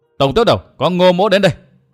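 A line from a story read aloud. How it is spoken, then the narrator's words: Loud shout after deep breath. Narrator (Vietnamese): Ngô Hằng hít vào một hơi dài, tung mình quát to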